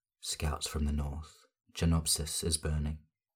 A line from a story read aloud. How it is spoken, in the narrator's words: he murmurs in her ear